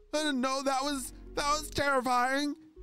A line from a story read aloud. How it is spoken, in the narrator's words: shouted Selena